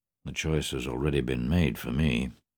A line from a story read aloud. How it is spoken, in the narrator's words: muttered Monsieur Rose bitterly